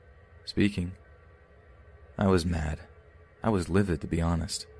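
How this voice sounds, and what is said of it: Usual voice. Nothing is said of it.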